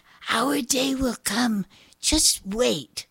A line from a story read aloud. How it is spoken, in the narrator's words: Janie whispered